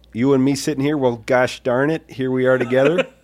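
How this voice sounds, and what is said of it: Put-on Minnesota accent. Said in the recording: “Is that a Minnesota accent? ... You're doing kind of like a... ... adorable. ... it's kind of sweet.”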